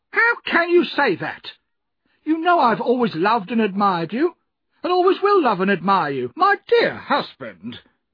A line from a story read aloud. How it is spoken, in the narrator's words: cried his wife